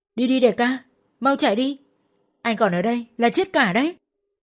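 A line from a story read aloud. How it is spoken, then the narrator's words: Desperate scream, bleeding mouth. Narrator (Vietnamese): Khang Trọng tiếp tục gào khi mà miệng Khang đang bật máu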